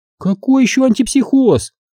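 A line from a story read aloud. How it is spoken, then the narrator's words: Puzzled exclamation. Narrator (Russian): недоуменно воскликнула Анжела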